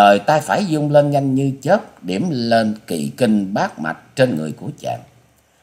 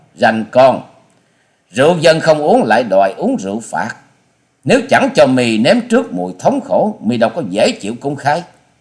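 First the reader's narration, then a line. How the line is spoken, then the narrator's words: Angry woman's loud shout. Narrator (Vietnamese): Nữ lang bịt mặt giận dữ quát to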